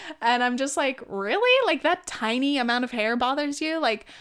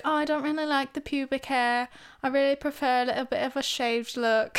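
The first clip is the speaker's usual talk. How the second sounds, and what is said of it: Put-on British accent. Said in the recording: “That's my fucking British accent”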